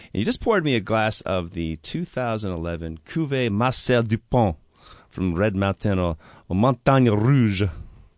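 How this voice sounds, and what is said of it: Decent French accent on French words. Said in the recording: “not a bad accent. Not bad.”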